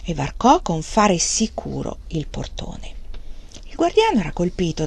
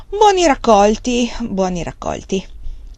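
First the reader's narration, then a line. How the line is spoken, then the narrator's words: Casual, condescending tone. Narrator (Italian): Wang Lung rispose in tono noncurante, come quando si parla a una persona di livello non esattamente pari al proprio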